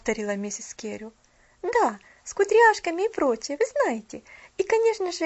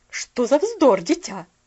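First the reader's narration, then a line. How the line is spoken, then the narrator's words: Sharp interruption. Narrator (Russian): прервала ее миссис Керрю немножко резко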